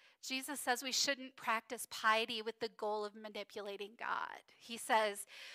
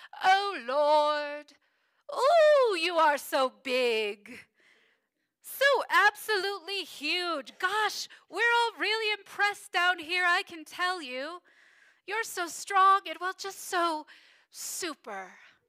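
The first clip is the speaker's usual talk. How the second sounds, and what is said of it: Monty Python priest impression. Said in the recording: “I'm going to do my Monty Python impression.”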